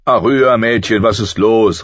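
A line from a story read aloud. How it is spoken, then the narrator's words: Man calling. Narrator (German): rief er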